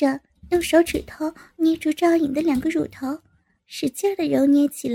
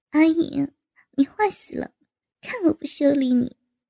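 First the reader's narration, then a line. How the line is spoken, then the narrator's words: Bashful laughing. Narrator (Chinese): 高杰红着脸笑道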